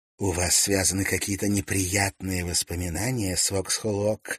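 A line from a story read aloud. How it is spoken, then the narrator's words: Very tender voice. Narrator (Russian): спросила она самым нежным голоском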